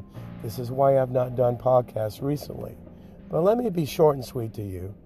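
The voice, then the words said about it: Nearly lost, strained voice. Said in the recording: “my voice is almost gone”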